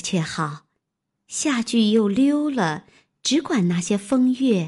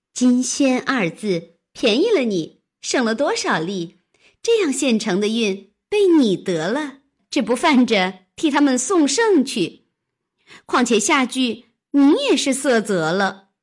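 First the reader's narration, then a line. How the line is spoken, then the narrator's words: Laughing. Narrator (Chinese): 湘云笑道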